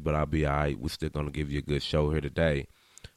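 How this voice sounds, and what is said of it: Slightly raspy voice. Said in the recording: “raspy little voice ... getting over a slight sinus infection, so I'm a little raspy”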